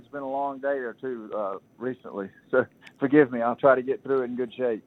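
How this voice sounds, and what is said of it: Tired-sounding voice. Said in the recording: “I sound a little tired.”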